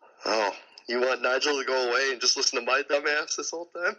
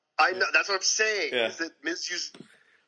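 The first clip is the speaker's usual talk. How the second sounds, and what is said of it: Put-on accent, hard to understand. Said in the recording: “I couldn't understand your accent.”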